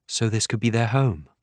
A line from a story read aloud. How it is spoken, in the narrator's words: Annie murmurs